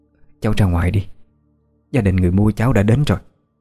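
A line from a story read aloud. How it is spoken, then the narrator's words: Old woman, trembling voice. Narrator (Vietnamese): Giọng bà trở nên run run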